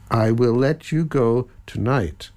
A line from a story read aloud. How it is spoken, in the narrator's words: he promised slowly